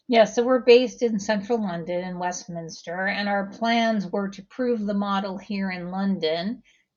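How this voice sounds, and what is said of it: American accent. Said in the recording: “Your accent might suggest that this is a US platform”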